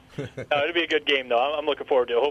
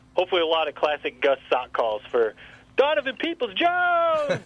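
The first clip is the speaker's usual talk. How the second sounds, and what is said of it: Impression of Gus play-by-play call. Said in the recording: “pretty good impression. That wasn't actually bad.”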